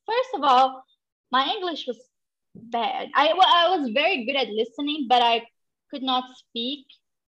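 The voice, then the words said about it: Non-native English accent. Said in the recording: “I'm a foreigner. You can hear my accent.”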